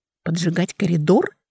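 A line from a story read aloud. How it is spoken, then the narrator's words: Quiet question. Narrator (Russian): тихо спросила Алекса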